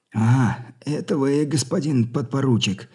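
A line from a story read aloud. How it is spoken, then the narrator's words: Relieved, weary soldier. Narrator (Russian): облегченный и в то же время устало произнес солдат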